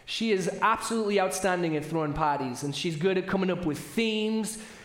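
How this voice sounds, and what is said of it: British accent. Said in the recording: “I'm saying parties, not potties, which often happens with my British accent”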